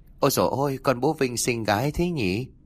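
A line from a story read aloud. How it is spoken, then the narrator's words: Friendly cooing baby talk. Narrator (Vietnamese): Thủy ra vẻ thân thiện mỉm cười, miệng còn nói nựng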